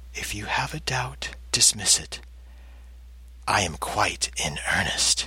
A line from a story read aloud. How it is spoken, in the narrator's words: she answered, very quietly and coolly